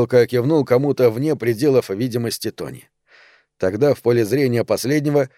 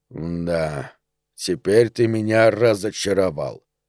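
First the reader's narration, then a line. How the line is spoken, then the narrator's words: Drawling. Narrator (Russian): протянул куколка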